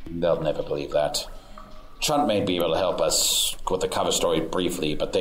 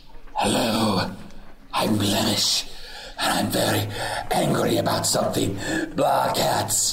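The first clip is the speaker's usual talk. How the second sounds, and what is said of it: Put-on character voice. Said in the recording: “good Blemish impression”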